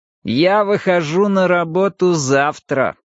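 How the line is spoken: Displeased, through teeth. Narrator (Russian): с явным неудовольствием процедил Пелас

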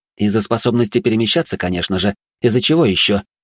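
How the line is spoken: Snapping. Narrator (Russian): снова огрызнулась Астрид

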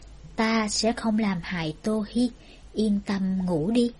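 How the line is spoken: Smiling. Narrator (Vietnamese): Phổ Tư mỉm cười nói

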